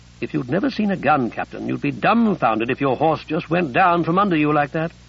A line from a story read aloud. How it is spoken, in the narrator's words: Ruddy said dryly to Grove